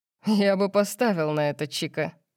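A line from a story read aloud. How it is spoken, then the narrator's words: Laughing. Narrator (Russian): засмеялся Диего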